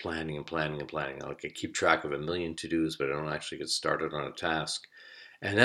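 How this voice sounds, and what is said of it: Usual voice. Nothing is said of it.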